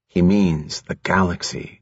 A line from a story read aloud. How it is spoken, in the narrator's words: Jason whispered